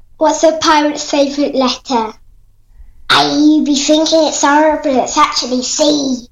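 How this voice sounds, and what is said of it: Pirate character voice. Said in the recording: “great pirate impression.”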